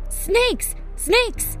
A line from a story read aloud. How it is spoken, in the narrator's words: he cried out